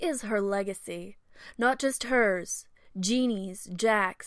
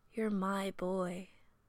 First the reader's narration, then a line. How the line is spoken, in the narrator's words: Janet whispers